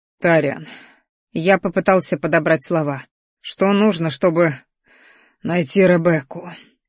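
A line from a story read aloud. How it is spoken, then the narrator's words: Heavy sigh. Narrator (Russian): Ректор тяжело вздохнул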